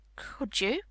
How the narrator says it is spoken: Mary faltered, beginning to feel frightened

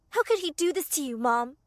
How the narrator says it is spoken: she said angrily

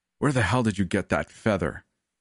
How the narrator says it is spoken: Alec grunted out

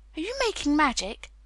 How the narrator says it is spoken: he said sharply

